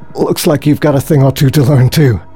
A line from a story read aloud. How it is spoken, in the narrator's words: gasped Dan